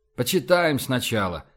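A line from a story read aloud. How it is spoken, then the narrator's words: Sighing. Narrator (Russian): вздохнул Рашен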